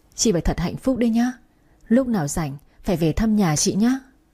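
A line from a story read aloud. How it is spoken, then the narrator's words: Choked with emotion. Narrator (Vietnamese): cái chi nghẹn ngào nói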